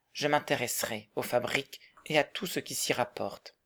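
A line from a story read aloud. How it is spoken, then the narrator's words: Calm reply. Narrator (French): répondit Marguerite d'un ton calme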